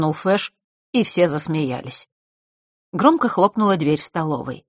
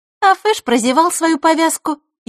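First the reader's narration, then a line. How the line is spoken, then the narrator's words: Snide interjection. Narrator (Russian): ехидно вставила Диана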